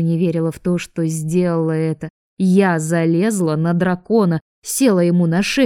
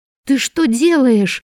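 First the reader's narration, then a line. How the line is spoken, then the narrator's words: Frightened cry. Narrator (Russian): испуганно выкрикнула я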